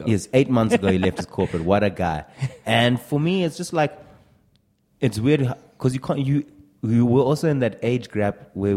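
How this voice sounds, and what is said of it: South African accent. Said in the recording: “a comedy podcast that he found that booms out of South Africa ... Took me a few minutes to get into the rhythm of their accent”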